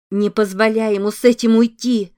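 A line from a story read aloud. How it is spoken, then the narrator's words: Attempted shout. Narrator (Russian): пыталась крикнуть она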